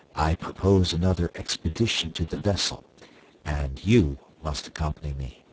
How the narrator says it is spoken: I added in a low tone, lest I should distress my wife

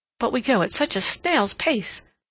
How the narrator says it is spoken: said Sally, shaking her head impatiently

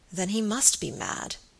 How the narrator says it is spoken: said Sir Michael gravely

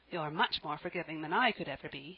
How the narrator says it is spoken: Anne said, rather crossly

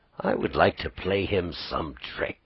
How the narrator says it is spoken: he said under his breath

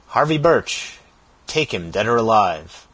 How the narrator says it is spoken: he exclaimed

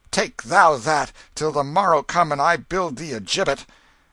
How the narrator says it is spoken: The prince said fiercely

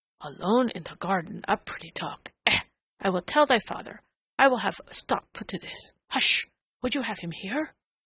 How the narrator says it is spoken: she admonished in a sudden whisper

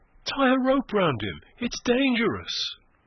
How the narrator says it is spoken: cried a soft and anxious voice somewhere above them

